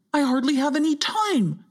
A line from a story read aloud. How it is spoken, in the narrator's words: exclaimed Hogger